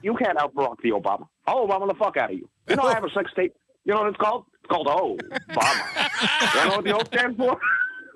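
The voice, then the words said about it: Imitates another person's voice. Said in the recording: “I'll do it like in my Obama voice ... I've just fallen in love with my Obama voice”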